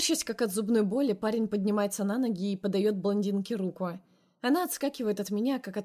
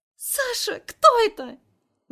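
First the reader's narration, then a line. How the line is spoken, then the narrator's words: Ear-piercing shriek. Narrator (Russian): Взвизгивает так, что у меня уши закладывает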